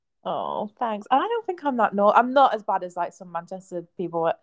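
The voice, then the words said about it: Northern English accent. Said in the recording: “you're really northern... I love your accent. It's really wonderful.”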